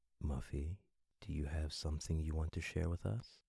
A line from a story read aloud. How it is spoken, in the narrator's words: said in a quiet, friendly voice